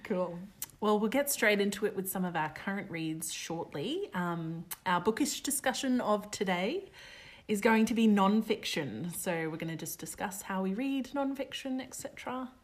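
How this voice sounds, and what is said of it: Slight English accent from Australian speaker. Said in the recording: “I have a bit of an English accent today because we were mucking around before ... I'm trying to go back to Australian.”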